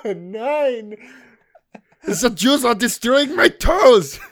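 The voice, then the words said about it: Unconvincing attempted German accent. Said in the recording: “That doesn't even sound German. I don't know what that accent was.”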